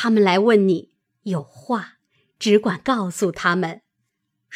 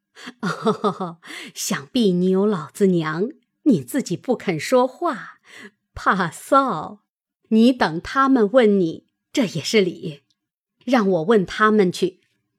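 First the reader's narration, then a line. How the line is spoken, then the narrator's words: Laughing. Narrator (Chinese): 邢夫人又笑道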